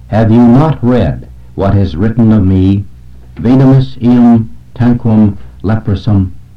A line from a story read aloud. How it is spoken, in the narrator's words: he exclaimed